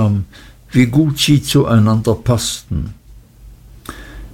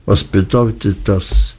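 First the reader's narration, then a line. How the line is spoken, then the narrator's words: Flat, toneless, unsettling voice. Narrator (German): Er sprach mit so tonloser Stimme, dass es mich fast erschreckte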